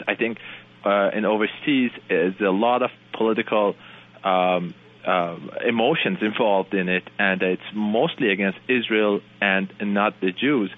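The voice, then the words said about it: Middle Eastern accent. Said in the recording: “I'm obviously not from here. I don't know if you can tell from my accent. I'm from Middle East.”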